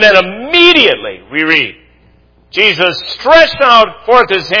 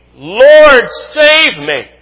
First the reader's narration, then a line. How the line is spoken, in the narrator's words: beginning to sink, he cried, saying